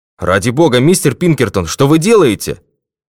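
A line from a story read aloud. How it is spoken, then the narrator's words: Colonel's shout. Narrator (Russian): крикнул полковник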